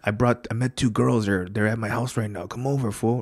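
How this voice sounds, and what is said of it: Imitates another person's accent. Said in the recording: “He already gave it away with the accent, man.”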